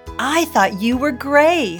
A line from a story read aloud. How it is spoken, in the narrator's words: Jody cried